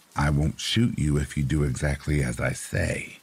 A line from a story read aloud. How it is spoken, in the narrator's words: she said in a calm but uneven voice